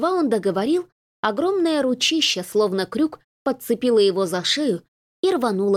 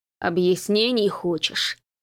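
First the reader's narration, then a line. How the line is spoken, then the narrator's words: Growl. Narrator (Russian): прорычал следящий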